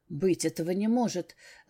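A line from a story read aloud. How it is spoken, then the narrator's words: Halting mutter. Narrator (Russian): сбивчиво пробормотал человек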